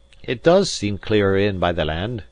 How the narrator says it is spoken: he cried

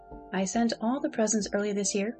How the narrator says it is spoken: said Adelaide

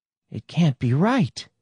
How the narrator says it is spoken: said shakily

